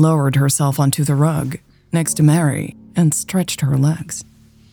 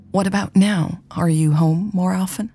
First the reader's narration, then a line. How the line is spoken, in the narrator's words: Mary asked